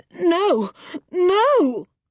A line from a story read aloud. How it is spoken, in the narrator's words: cried Pottersham in terror